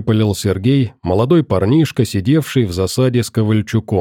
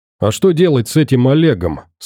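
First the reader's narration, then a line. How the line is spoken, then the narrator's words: Plain. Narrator (Russian): спросил Вадим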